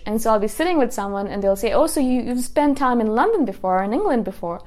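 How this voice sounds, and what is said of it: Mild mixed accent, mostly British. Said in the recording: “I am this person who has a British accent. Now, it's not a very strong accent. It's not completely British because I also have lived in Canada, so there's a little bit of Canada in there... there's a little bit of Indian in there... all of these random accents mix together, but sometimes predominantly it comes across as British”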